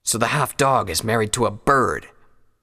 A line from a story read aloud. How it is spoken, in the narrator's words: the lead stallion said scornfully